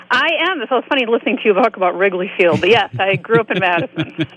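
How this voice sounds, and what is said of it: Wisconsin accent. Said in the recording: “you got that Wisconsin accent ... When you said the word great”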